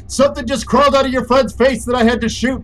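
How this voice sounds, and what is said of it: Yelling. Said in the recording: “why are you yelling? ... That's why I'm fucking yelling right now.”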